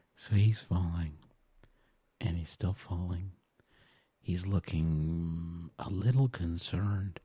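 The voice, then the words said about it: Soft whispery ASMR voice. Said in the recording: “in ASMR voice, no matter what happens.”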